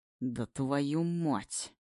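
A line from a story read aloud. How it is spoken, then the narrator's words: Angry growl. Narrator (Russian): Рычу зло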